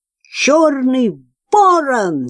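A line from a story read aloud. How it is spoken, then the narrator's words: Shout. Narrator (Russian): закричала она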